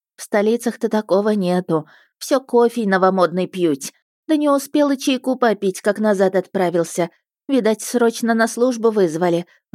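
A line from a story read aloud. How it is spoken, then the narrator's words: Sighing. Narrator (Russian): вздохнула служанка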